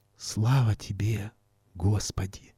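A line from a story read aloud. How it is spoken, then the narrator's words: Whisper. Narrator (Russian): шептала рядом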